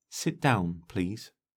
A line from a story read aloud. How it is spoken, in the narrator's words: said Corrigan quietly